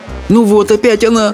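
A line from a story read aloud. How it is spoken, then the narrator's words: Exclamation tinged with despair. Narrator (Russian): с ноткой отчаяния воскликнула Чармейн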